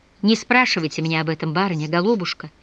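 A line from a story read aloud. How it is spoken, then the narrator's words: Sighing. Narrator (Russian): вздохнул Антип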